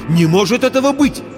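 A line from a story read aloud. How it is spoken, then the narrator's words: Exclamation. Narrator (Russian): воскликнул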